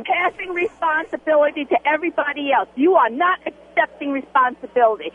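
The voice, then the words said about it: New York accent. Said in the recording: “you got a New York accent?”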